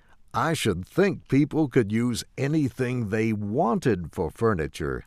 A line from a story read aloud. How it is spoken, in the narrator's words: I said, somewhat sharply